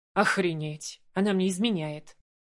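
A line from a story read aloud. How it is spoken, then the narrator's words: Nervous laugh. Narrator (Russian): Нервно рассмеялся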